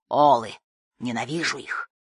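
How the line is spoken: Captain's proud growl. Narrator (Russian): Гордо улыбаясь, капитан прорычал

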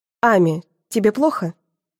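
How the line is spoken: Calm question. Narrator (Russian): спокойно спрашивает дядя Леня

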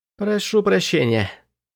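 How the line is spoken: Numb-lipped mumble. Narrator (Russian): промямлил я оцепенелыми губами

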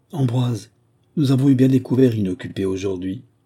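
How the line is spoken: Grandmother speaking sadly. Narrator (French): ma grand-mère disait tristement à son maître d'hôtel

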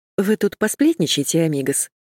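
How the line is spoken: Plain. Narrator (Russian): сказала я

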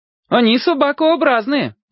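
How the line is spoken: Shouted over shoulder. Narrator (Russian): обернувшись, крикнул Володя

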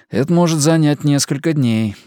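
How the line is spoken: Sighing. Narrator (Russian): вздохнул Габриэль

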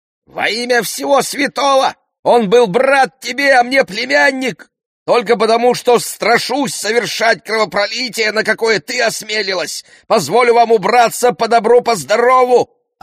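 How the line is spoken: Yelling after them. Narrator (Russian): орала она им вслед

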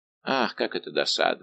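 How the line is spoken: Sighing. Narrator (Russian): вздохнул Д'Артаньян

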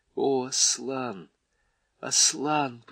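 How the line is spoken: Whisper. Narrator (Russian): прошептал он

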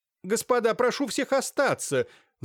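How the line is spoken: Shouted. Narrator (Russian): закричала в выступлении Софья Лукинишна

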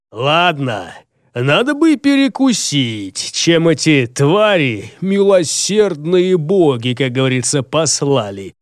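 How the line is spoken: Mocking, clipped, after laughter. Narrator (Russian): насмешливо отчеканил Джаргул, как только прекратил смеяться

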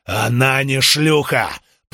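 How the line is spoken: Growl while fighting. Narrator (Russian): прорычал Карбон, продолжая наносить удары

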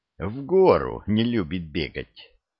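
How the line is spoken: Calm, slightly mocking reply. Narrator (Russian): Спокойно, но, как мне показалось, с девкой ответил Артем

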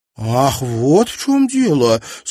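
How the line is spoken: Enthusiastic exclamation. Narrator (Russian): с энтузиазмом воскликнула миссис Редж

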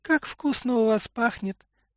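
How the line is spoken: Squeaky voice. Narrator (Russian): пропищала Катюшка

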